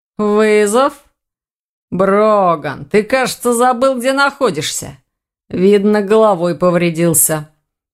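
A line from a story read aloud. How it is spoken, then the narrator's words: Through gritted teeth. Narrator (Russian): процедил сквозь зубы оборотень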